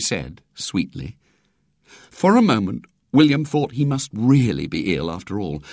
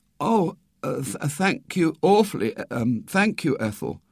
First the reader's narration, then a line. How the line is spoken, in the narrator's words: stammered